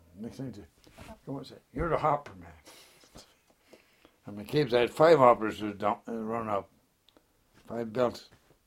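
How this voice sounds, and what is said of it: Irish accent. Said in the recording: “That's your Irish accent coming out.”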